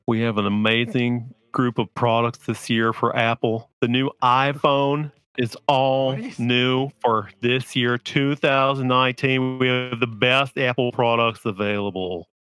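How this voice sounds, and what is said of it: Imitates another person's voice. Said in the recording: “do his voice. I used to be able to do his voice really well ... I don't know if that's as good as it used to be.”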